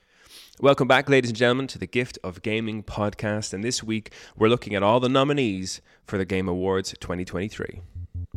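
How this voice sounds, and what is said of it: Congested voice from a cold. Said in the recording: “suffering from a cold, a never-ending cold, as you can probably tell by my voice”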